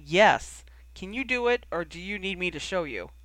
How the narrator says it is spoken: Charlie sighed

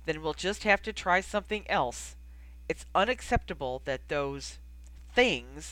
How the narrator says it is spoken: he spat out the word

